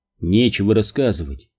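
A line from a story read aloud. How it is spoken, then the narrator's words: Plain. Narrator (Russian): сказал он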